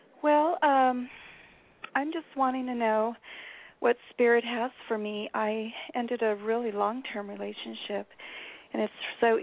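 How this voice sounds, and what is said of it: Slightly scratchy voice. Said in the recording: “I'm just getting off of a cold, so my voice is a little scratchy.”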